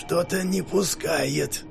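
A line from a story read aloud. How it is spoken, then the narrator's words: Hissed. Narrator (Russian): прошипел он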